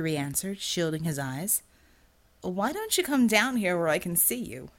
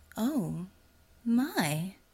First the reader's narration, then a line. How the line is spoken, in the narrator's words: she said in a melodious voice, with an accent he couldn't place